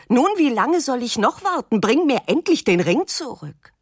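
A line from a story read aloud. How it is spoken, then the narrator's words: Nervous, uncontrolled shouting. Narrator (German): Sie wird nervös, weil der Junge noch immer nicht damit zurück ist und schreit unbeherrscht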